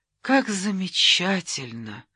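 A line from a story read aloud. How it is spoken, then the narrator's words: Tender speech. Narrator (Russian): проговорил он ласково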